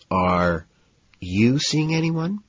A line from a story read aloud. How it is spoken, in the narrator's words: she ventures timidly